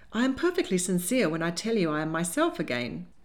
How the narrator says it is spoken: she said, laughing uncomfortably

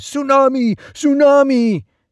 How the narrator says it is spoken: shouting

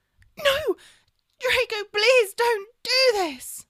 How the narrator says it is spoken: she screamed, as a man pulled her away

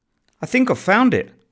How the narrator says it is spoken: he exclaimed excitedly, smiling

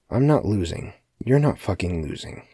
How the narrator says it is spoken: Keith muttered under his breath

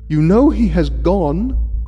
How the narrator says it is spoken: cried Mrs

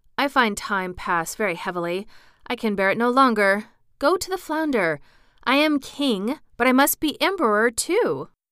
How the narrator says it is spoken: said the woman, quite anxiously

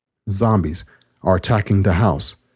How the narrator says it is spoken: Evan's father said

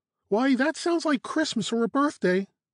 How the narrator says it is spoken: exclaimed Caro

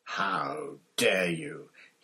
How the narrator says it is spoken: he growled, sounding suddenly like the bear-sized dog he had been

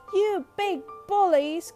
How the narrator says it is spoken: croaked Joe

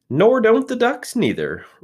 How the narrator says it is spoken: replied the rat cheerfully

